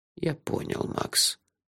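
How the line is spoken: Soft reply. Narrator (Russian): мягко ответил он

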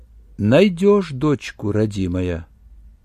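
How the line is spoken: Quiet but clear, old woman. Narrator (Russian): все так же негромко, но ясно произнесла старуха

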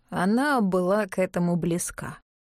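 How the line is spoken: Sighing. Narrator (Russian): Мартин вздохнул

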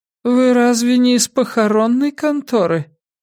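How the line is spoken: Tired voice. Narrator (Russian): Голос монашки звучал устало

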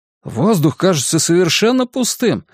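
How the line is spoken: Exclaimed. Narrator (Russian): воскликнул кто-то

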